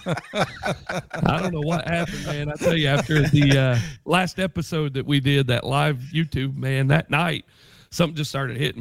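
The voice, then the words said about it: Hoarse, under-the-weather voice. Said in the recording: “You're sounding a little bit hoarse tonight”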